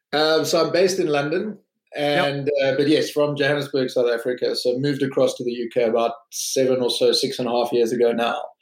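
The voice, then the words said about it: South African accent. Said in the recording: “you're obviously from South Africa, listening to your accent”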